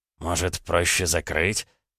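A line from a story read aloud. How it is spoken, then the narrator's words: Quiet question. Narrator (Russian): тихо спросил Раевский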